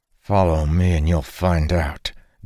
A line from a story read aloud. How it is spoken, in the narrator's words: Dalen said through gritted teeth